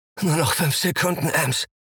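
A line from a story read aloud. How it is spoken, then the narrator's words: Choked panting. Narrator (German): keuche ich erstickt, als sich das verräterische Ziehen in der Lendengegend ankündigt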